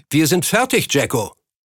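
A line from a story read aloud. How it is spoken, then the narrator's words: Man calling across. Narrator (German): Einer der anderen Männer rief vom Geldtransporter herüber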